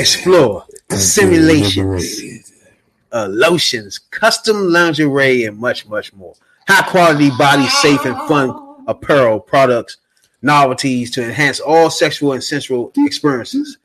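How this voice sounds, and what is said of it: Sultry, seductive radio announcer voice. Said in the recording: “doing my sexy radio voice”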